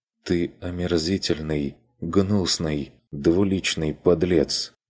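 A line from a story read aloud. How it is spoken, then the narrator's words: Quiet. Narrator (Russian): Отозвалась та тихо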